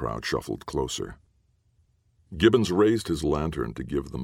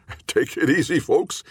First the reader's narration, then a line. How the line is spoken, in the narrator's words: forced a chuckle